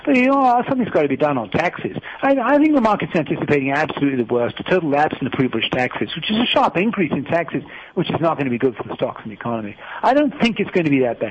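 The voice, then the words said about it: Fast, slurred impression of Siegel. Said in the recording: “he talks fast and slurring over the words so that you don't really hear what he's saying”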